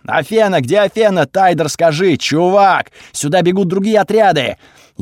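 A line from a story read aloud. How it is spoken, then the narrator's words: Loud. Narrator (Russian): громко сказал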